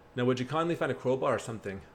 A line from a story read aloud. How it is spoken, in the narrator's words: said Atlas